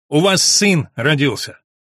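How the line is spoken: Loud voice. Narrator (Russian): громким голосом

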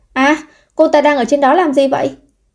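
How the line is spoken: Scream. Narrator (Vietnamese): Có người thét lên

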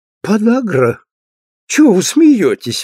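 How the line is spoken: Cheerful. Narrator (Russian): весело сказала она

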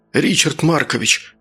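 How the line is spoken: Excited whisper. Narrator (Russian): Возбужденно зашептал Саня

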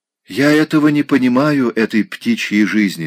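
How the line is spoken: Plain. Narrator (Russian): сказала она

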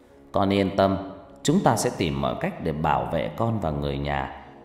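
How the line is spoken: Worried reassurance. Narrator (Vietnamese): Ngọc Lam khẽ gật đầu trông lo lắng

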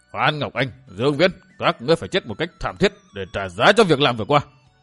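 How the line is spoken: Furious, gritted. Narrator (Vietnamese): Thất Sát La Sát không nhẫn nại được, bèn giống lên như quỷ cuồng, vừa gằn giọng bảo

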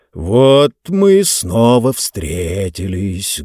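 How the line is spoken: Muffled voice. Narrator (Russian): глухо начал он

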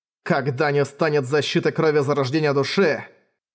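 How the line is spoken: Bloodthirsty growl. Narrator (Russian): прорычал он кровожадно

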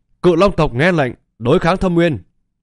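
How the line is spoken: Dragon's loud roar. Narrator (Vietnamese): Một đầu cự long gầm to

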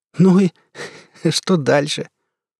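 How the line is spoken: Laughing through tears. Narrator (Russian): сквозь слезы смеха спросил

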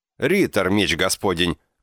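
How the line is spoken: Joyful shout. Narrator (Russian): крикнул, искренне обрадовавшись

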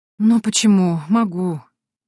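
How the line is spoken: Heavy sigh. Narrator (Russian): тяжело вздохнула я

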